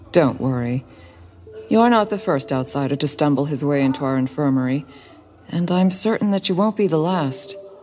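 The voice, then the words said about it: Soothing female character voice. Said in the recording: “The female doctor began explaining in a soothing voice.”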